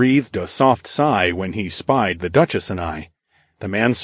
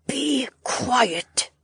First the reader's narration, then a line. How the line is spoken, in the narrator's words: the blonde aristocrat hissed through her teeth